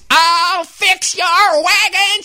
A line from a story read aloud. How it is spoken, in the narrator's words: she screamed